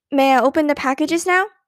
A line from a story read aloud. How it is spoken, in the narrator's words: Beezus asked eagerly